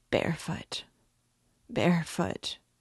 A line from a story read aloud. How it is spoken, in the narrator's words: he muttered